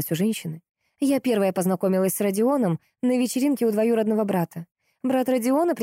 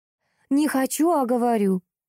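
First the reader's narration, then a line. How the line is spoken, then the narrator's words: Exclaiming. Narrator (Russian): воскликнула Горчакова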